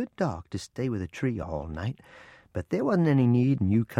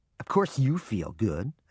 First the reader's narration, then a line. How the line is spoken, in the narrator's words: I said in an irritated voice